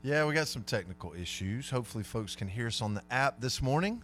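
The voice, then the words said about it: Low, slightly hoarse voice. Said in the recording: “I sound a little, I don't know, a little low this morning, a little hoarse maybe”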